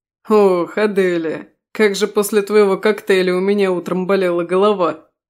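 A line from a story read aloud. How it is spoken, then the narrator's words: Amused complaining. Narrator (Russian): пожаловался он, хотя глаза его продолжали смеяться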